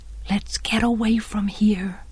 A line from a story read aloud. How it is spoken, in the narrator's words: breathed Jem